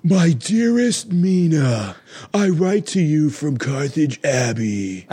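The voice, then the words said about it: Keanu Reeves' attempted British accent. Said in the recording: “he's trying to have a British accent, and it's a Keanu Reeves British accent”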